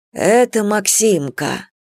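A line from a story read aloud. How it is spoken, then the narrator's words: Forced out with effort. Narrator (Russian): наконец выдавил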